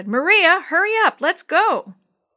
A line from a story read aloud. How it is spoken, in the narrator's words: He leaned out the window and shouted